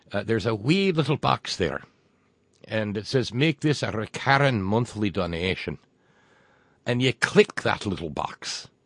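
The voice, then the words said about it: Poor put-on Irish accent. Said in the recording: “my crummy Irish accent”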